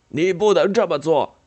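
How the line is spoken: Shouting. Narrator (Chinese): 他叫嚷着

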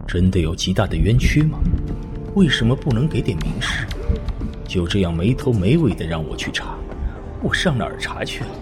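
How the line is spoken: Quiet muttering. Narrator (Chinese): 李安 小声嘀咕

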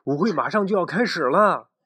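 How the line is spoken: Shouting. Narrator (Chinese): 他朝安博喊道

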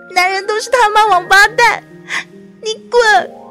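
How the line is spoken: Crying shout. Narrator (Chinese): 薄荷哭着喊

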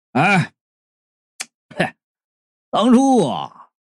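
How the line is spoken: Loud laughing. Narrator (Chinese): 矮胖高声的笑道

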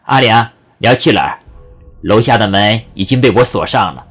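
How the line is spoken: Smiling. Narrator (Chinese): 他微笑着说

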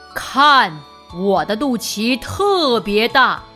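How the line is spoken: Loud roaring command. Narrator (Chinese): 狮子大吼一声，下了命令

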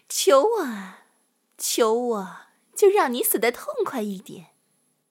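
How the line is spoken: Sinister laughing. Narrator (Chinese): 他狞笑的说道

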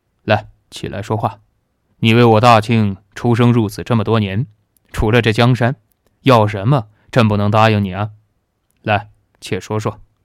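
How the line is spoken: Smiling, laughing. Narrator (Chinese): 贺连义笑着说道

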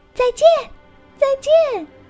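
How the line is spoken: Loud shout. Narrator (Chinese): 蝴蝶大声喊着

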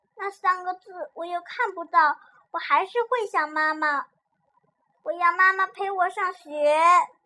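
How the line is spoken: Child crying. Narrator (Chinese): 小苹果又不想上学了，他哭着说

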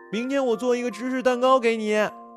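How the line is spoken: Calling out. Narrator (Chinese): 他对着他的背影喊

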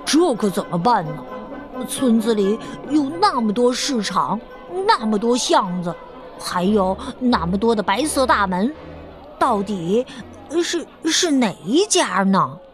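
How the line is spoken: Grumbling mutter. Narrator (Chinese): 有人开始嘟囔起来

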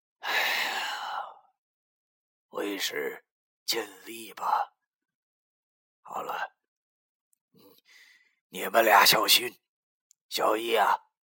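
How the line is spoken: Sighing, complicated feelings. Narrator (Chinese): 九叔叹了口气，对我说

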